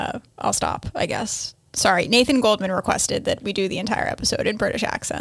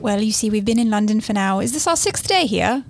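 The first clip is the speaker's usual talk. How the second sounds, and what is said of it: Put-on British accent. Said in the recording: “I seem to have picked up the accent... She now thinks she's British.”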